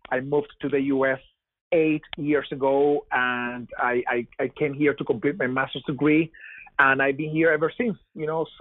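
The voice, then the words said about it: Venezuelan accent. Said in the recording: “you may tell by my accent that I am not from here. I'm from Venezuela.”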